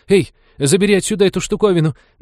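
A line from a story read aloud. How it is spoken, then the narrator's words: Trembling demand. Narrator (Russian): дрожащим голосом потребовала Молли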